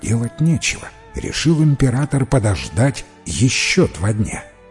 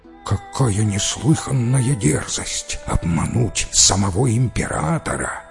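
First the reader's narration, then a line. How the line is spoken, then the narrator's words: Courtiers whispering. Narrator (Russian): зашептались придворные советники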